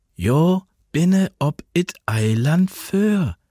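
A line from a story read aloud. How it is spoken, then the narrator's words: Slow, patient, as to child. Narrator (German): sagte sie, langsam und geduldig, als spräche sie zu einem Kind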